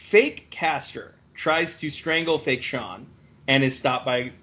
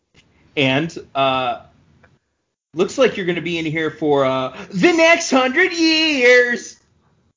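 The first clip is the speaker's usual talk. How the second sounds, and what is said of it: Imitates another person's voice. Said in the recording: “that's a pretty good Travolta ... doing an impression of John Travolta doing an impression of Nick Cage”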